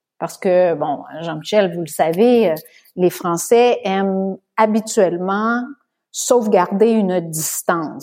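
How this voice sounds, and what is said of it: Sing-song Canadian French accent. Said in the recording (French): “le timbre de ma voix, ma voix chantante, mon accent, euh, ou euh, le drapeau du Canada”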